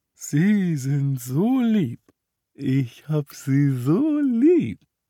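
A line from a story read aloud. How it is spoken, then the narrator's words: Drunken slurring. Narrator (German): lallte er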